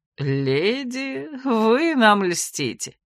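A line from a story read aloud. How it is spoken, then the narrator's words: Chuckle. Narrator (Russian): Рауль хохотнул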